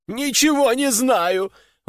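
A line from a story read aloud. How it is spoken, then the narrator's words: Exclaimed. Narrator (Russian): воскликнул он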